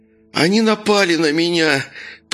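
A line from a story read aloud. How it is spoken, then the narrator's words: Man moaning. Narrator (Russian): продолжал стонать мужчина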